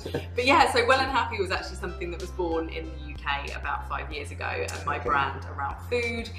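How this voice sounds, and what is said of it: English accent, posh telephone voice. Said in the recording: “I was from England, primarily. ... Got my telephone voice on as well. ... Extra English.”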